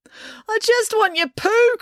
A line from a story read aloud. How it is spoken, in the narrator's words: cried Finn